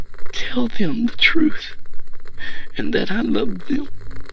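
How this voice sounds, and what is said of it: Broken, tearful voice after a sob. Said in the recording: “stifled a sob, then continued in a broken voice”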